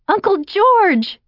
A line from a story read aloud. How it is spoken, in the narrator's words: She squealed